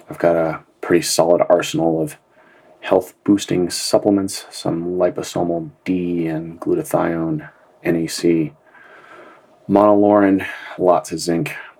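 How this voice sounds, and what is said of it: Sick-sounding voice. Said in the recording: “I'm a little under the weather today... I'm pretty sick at the moment. You can probably hear it in my voice.”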